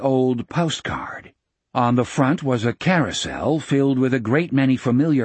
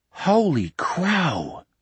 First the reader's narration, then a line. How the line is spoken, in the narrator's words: he whispered